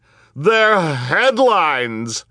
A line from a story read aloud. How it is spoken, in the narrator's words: screeched Geraldine Julien